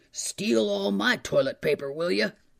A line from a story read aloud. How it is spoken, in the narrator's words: he hollered